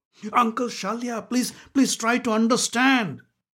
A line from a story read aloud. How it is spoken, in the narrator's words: pleaded Duryodhan